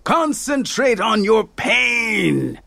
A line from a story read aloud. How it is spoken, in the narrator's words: he shouted